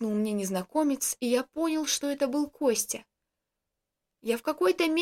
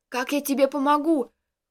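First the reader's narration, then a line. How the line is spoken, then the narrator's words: Shouting. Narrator (Russian): кричал я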